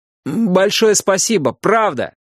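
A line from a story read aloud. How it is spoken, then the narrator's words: Shouting after him. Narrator (Russian): крикнул ему вслед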